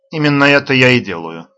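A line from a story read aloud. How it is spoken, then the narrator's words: Mildly irritated, level voice. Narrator (Russian): отвечает немного раздраженно, но не повышая голоса, Марин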